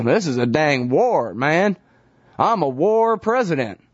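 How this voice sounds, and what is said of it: Fake Texas accent. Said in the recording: “he does the fake Texas accent better than I do”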